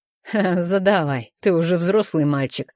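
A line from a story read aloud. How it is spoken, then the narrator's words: Chuckling. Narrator (Russian): хохотнул предок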